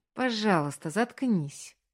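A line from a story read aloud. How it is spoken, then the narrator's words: Pleading. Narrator (Russian): взмолился Маркус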